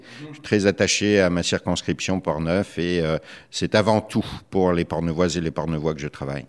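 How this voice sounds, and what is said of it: French accent from France. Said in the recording (French): “Vous êtes un Québécois d'origine française, ça s'entend ... cet accent reste là et donc me trahit encore”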